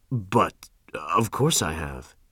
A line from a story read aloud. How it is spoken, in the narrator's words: stammered